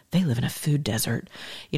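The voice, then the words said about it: Mock public-radio announcer voice. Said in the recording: “that's my NPR voice”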